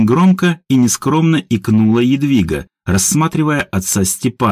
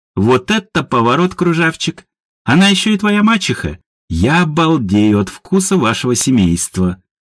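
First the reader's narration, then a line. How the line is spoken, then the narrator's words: Gray-haired man chuckling. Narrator (Russian): Седовласый мужчина хохотнул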